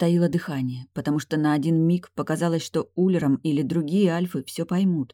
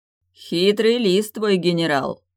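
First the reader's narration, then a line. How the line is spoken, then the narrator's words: Growled. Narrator (Russian): прорычал Улером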